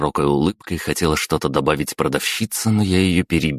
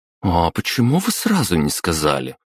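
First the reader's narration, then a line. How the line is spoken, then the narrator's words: Offended shopgirl. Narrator (Russian): обиженно проговорила продавщица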